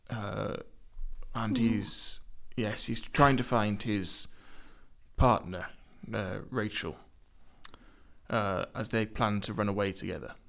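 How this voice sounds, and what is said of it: Slipping into a posh accent. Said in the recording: “you're kind of slipping into a posh accent”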